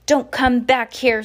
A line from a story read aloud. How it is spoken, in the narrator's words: Sir yelled after them